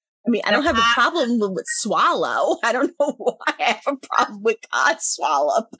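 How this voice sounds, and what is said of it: New York accent. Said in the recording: “my New York accent... I think it's your accent”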